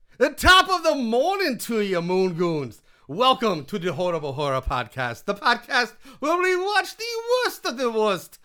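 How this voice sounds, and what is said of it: Put-on accent of unclear origin. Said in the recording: “I don't know what the fucking accent I'm doing anymore.”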